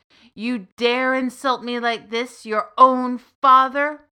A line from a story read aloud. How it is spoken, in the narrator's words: the merchant roared